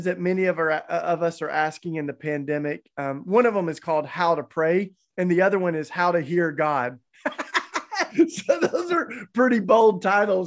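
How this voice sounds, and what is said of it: Southern American accent, East Tennessee. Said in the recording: “I grew up down in the South, so that's where my charming accent comes from, East Tennessee, and I can't fake it.”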